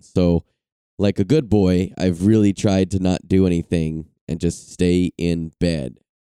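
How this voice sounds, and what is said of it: Sick voice, has the flu. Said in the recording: “I don't know if you guys can hear it in my voice, but I am motherfucking sick. I think I have the flu”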